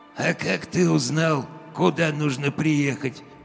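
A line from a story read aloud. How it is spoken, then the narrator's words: Sudden unpleasant hoarse voice. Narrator (Russian): Спросил вдруг у меня над ухом голос с неприятной хрипотцой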